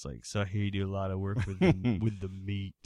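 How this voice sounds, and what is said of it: Radio announcer voice. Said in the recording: “My radio voice came in.”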